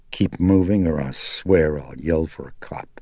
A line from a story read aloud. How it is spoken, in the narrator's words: Chris said coldly